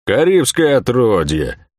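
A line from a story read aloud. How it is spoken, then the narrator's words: Merchant's grumble. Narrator (Russian): проворчал сидевший слева от Лавиани купец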